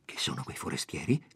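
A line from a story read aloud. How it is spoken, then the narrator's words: Low question. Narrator (Italian): gli domandò poi a voce bassa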